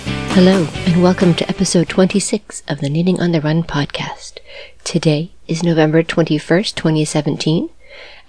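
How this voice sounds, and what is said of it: Voice sounds a little sick. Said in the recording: “As you can hear from my voice, I'm still a little under the weather.”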